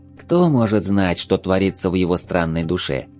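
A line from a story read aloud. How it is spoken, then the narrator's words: Sad sigh. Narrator (Russian): с грустью вздохнула хлорианка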